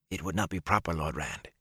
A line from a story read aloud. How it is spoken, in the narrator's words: he whispered